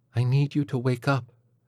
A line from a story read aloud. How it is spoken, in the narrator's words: she said quietly